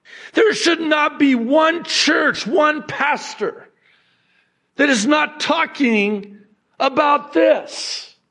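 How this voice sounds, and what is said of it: Screaming, yelling loudly. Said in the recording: “screamed from the rooftops like I am right now, screaming... I'm yelling”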